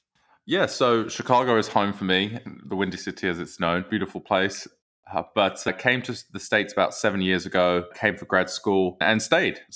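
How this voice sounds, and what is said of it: British English accent. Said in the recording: “you will hear a British accent, I think ... you sound English or British”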